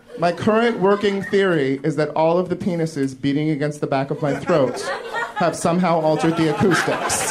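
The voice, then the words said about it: Stereotypically gay-sounding speech. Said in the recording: “the way that gay guys talk ... I don't know why I talk like this ... I don't know why I have this accent ... speaking gay”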